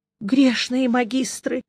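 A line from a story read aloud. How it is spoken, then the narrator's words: Despairing groan. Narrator (Russian): с отчаянием простонал Мелифара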